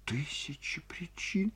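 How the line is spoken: Sobbing. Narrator (Russian): всхлипнула Ольга Ивановна

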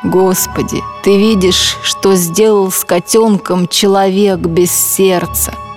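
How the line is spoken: Plain. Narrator (Russian): сказал Эрвин

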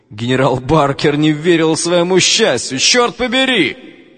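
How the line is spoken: Shouting. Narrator (Russian): закричал он

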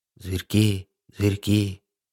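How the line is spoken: Creepy whisper. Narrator (Russian): Нашептывал им по вечерам из щели страшный фон Клоп

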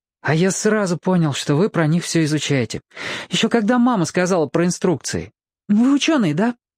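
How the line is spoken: Laughing. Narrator (Russian): засмеялся

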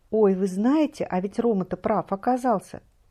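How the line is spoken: Joyful rapid chatter. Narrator (Russian): радостно затараторила она

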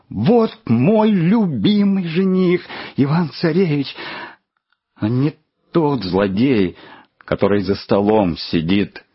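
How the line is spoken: Shouting. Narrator (Russian): закричала

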